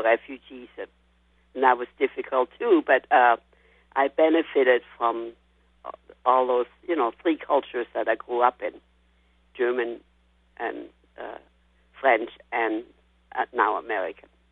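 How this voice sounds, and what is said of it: European-accented English. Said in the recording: “your accent is not going to be a problem... mostly from Eastern Europe, and you know, all had accents similar to yours”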